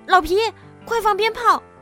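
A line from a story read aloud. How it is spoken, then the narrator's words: Frightened shout. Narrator (Chinese): 气球爆炸了，小点子被吓得弹了起来，他大叫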